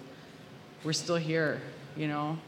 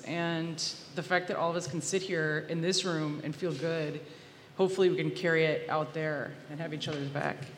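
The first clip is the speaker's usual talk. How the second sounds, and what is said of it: Emotional, choked-up voice. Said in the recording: “I'm getting emotional. Why? Why am I getting emotional?”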